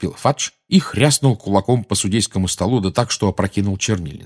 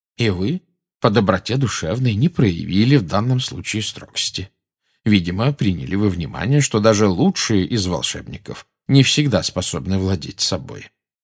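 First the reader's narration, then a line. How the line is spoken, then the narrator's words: Calm. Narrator (Russian): спокойно проговорил Дамблдор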